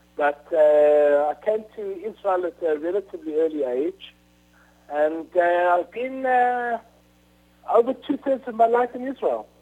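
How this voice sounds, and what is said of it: South African accent. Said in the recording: “You can hear by my accent that my accent is more or less South African”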